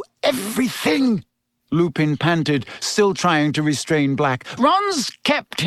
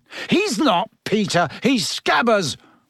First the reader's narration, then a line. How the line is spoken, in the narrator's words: Ron yelled